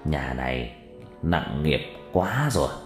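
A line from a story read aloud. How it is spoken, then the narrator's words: Muttering. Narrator (Vietnamese): Thầy lắc đầu lẩm bẩm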